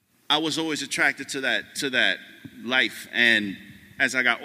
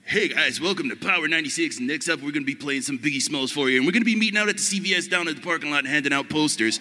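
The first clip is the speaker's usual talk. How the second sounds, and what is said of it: Cheesy radio DJ voice. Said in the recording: “I didn't want to be radio guy ... I didn't want to be radio guy doing the voice.”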